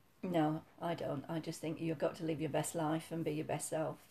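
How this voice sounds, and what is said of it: Yorkshire accent. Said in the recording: “Yorkshire girl. Um, you can probably hear that from your accent.”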